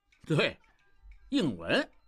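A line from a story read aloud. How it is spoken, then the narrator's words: Thoughtful, laughing. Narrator (Chinese): 想了想，笑道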